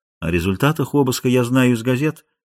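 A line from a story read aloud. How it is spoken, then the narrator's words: Soft interruption, bishop. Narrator (Russian): мягко перебил епископ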